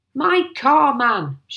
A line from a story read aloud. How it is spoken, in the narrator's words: shouted Mr